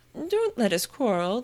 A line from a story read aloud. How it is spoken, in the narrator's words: the White Queen said in an anxious tone